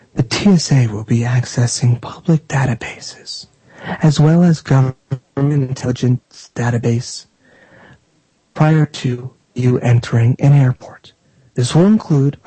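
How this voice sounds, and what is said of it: Creepy TSA agent voice. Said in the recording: “Okay, I'll stop doing that voice, jeez. That's my creepy TSA voice.”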